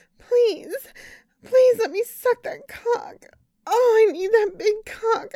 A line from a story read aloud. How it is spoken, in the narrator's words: begged